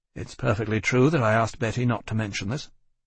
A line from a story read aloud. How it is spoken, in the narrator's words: said stiffly